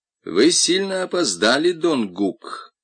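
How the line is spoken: Unpleasant voice. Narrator (Russian): сказал неприятным голосом Дон Кондор

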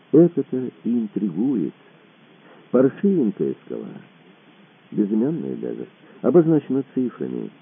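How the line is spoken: Soft laughter. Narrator (Russian): и тихонько рассмеялся

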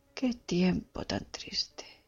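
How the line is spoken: Murmur. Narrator (Spanish): murmuraba

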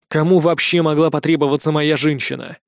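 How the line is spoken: Angry mutter. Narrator (Russian): зло пробормотал я

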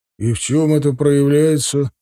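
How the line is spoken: Tired question. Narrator (Russian): устало спросил отец

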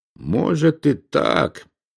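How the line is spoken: Mumbled. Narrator (Russian): пробормотал он

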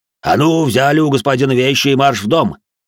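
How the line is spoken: Barked order. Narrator (Russian): рявкнул на них дворецкий

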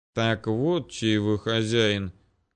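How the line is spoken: Mutter. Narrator (Russian): пробурчал я

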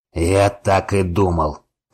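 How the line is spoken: Growled. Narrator (Russian): прорычал Вайнер

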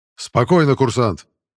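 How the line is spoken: Barking command. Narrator (Russian): рявкнул брат Дексус

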